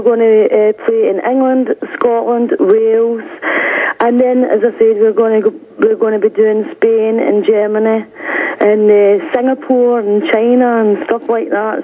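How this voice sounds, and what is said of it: Strong accent, hard to understand. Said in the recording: “I hope you can understand my accent... I'm understanding it much more clearly right now”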